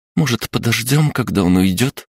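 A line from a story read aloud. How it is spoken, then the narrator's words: Timid nurse suggesting. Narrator (Russian): робко предложила медсестра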